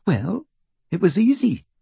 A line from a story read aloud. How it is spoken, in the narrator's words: said Hermione in a small voice